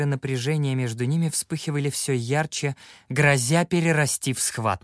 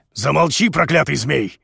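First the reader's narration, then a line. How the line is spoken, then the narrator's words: Barked angrily. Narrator (Russian): рявкнул У Вэйшэнь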